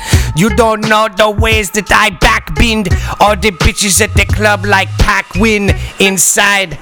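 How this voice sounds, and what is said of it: Jamaican accent mixed with English. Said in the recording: “I'm mixing my Jamaican accent with an English one.”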